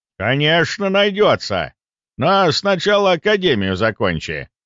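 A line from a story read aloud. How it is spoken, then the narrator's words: Stern old man. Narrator (Russian): строго сказал дед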